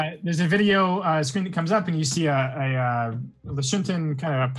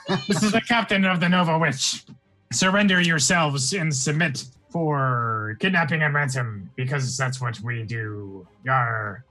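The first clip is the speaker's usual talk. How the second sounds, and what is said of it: Pirate character voice. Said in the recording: “speaking like a pirate”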